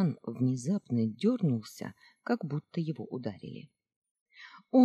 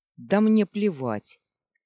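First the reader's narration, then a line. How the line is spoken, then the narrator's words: Sharp retort. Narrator (Russian): резко бросил ему в лицо Зеро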